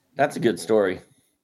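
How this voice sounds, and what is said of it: Deeply sarcastic tone. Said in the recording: “Are you being sarcastic? ... it sounded like deeply sarcastic”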